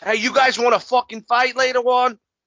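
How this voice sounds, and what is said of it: Attempted thick New York accent. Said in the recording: “I can't do Bullies fucking New York accent. So thick.”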